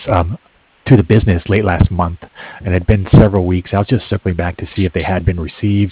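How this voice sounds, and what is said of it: Hoarse, fading voice. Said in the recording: “Excuse me, I'm losing my voice.”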